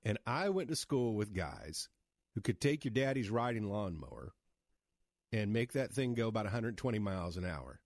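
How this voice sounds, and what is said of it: American Midwestern accent. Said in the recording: “I still have the Midwest accent”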